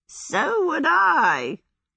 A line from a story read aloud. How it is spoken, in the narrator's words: cackled Calcifer